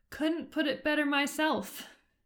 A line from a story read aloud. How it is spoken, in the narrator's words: he said weakly